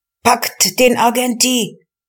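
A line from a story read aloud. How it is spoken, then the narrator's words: Furious crowd shouting. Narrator (German): schrien die Zornentflammten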